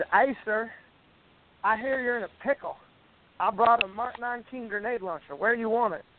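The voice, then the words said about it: Thick Southern drawl. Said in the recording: “He's got a pretty thick, you know, thick Southern drawl.”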